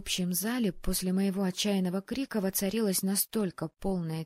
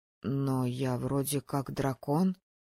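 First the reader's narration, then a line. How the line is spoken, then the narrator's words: Mumbling. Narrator (Russian): промямлил Харрор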